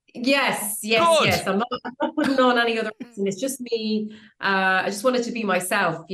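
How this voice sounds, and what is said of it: Irish Tipperary accent. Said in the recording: “Tipperary accent”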